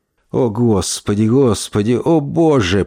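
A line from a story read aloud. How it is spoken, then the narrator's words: Groaning. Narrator (Russian): простонал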